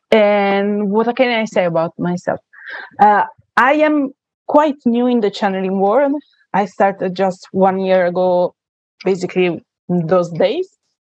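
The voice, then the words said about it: Italian accent. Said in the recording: “as you can say from my accent, I am Italian”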